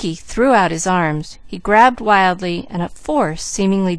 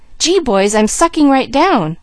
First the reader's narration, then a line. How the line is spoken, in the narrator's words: suddenly he cried